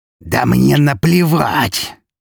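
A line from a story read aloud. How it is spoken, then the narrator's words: Furious growl up close. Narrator (Russian): в лицо ей прорычал взбешенный граф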